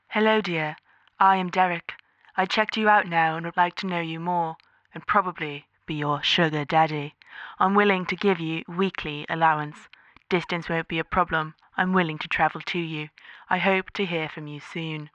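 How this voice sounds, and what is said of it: Put-on British accent. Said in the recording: “now with a British accent”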